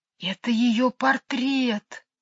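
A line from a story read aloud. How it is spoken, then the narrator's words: Whisper. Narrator (Russian): сказала она шепотом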